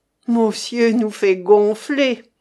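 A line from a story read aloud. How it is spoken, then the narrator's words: Blissful snicker. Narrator (French): ricana béatement Petit Bon Dieu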